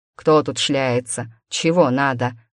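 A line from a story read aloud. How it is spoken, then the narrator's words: Deep bass voice. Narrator (Russian): пробасил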